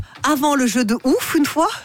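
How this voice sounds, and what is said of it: Failed Belgian accent, sounds Alsatian-German. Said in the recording (French): “C'est un accent entre l'Alsace et l'Allemagne ... Le une fois, elle pense que ça va faire belge ... C'est pas ça”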